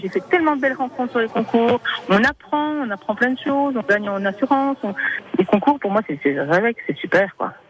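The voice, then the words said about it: Franc-Comtois French accent. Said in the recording (French): “avec le bel accent franc-comtois”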